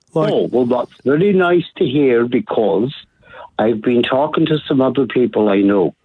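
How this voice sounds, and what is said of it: Scottish or Irish accent. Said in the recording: “he's got an accent. ... Scottish. ... He's Irish.”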